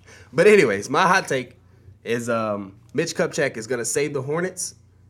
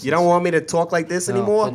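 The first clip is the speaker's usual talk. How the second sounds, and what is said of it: Put-on New York Brooklyn accent. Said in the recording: “I sounded like a New Yorker that time ... Maybe I should talk like this ... Do I sound like I'm from Long Island or Brooklyn? ... Long Island. You sound more like you're from Brooklyn ... Why do I do these random voices?”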